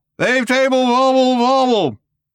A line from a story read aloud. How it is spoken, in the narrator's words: shouted Slarty Bartfast again